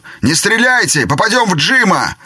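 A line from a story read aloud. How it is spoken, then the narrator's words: Shouted. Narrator (Russian): Кто-то крикнул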